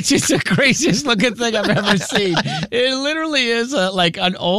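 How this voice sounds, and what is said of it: Usual voice. Nothing is said of it.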